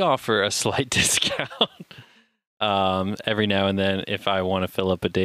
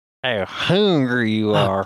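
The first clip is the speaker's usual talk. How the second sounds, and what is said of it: Ridiculous put-on accent. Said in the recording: “That ridiculous accent.”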